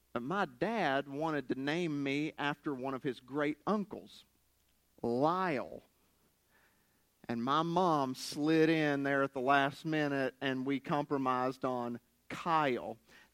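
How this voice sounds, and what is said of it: Southern West Virginian accent. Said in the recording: “my southern West Virginian accent”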